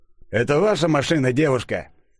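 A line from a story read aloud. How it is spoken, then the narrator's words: Stern question. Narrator (Russian): строго спросил один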